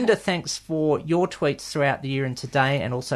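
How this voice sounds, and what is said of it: Usual voice. Nothing is said of it.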